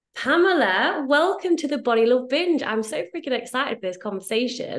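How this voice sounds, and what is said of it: British accent. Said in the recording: “I have that British accent”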